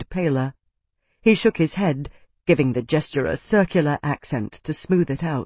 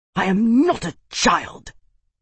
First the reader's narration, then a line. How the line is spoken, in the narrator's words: Tavi hissed furiously